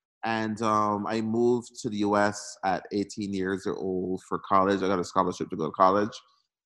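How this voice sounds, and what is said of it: Slight Barbadian accent. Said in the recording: “I hear a little bit of an accent ... I was born and raised in Barbados”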